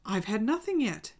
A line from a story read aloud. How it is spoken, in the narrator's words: Alice replied in an offended tone